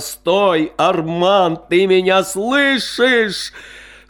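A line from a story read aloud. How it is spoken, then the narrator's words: Shouting across open field. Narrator (Russian): Наливач в сердцах вдруг закричал в открытое поле ипподрома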